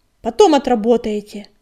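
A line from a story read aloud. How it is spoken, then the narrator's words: Sharp, commanding. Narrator (Russian): резко сказал Огнегрив, давая понять, что его приглашение нужно расценивать как приказ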